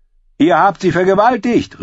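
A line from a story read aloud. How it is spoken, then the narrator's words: Shouted. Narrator (German): rief er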